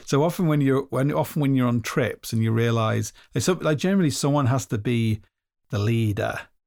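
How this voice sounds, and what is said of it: Hoarse voice. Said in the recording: “You sound hoarse.”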